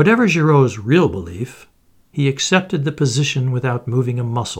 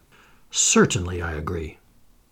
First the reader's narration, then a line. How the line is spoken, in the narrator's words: Calmly and almost scornfully, replied